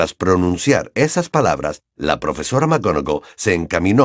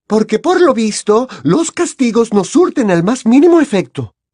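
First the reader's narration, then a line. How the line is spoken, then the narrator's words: Curt exclamation. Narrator (Spanish): exclamó la profesora McGonagall de manera cortante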